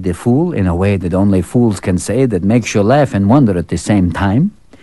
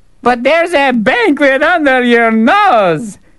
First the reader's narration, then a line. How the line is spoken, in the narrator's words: the fool called out